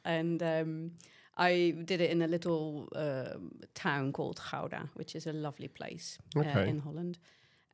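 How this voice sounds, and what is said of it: Noticeable foreign accent. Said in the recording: “You, yeah, can hear I have an accent.”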